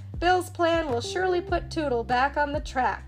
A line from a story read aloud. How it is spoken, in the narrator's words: chuckled